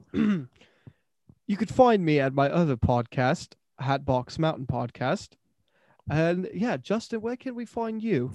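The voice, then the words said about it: Put-on British accent, fairly good. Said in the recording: “Let me hear your British accent. ... That was pretty good, mate. That was pretty good.”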